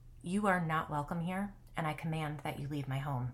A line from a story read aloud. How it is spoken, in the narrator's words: said in a low voice